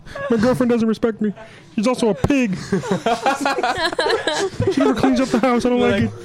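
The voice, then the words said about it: Kermit the Frog voice impression. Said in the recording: “I'm just going to do the rest of the podcast like this. ... I'm Kermit.”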